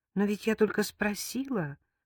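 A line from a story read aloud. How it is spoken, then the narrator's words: Timid remark. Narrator (Russian): робко заметила Лика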